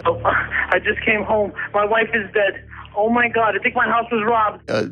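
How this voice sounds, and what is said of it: Fake-sounding distressed emergency call. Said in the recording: “this sounds utterly phony ... You can hear the fake in his voice ... just by your tone of voice”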